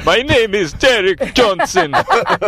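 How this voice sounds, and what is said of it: Put-on Jamaican accent. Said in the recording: “Derek's Jamaican food ... My throat gets sore when I do that voice ... do a Jamaican guy”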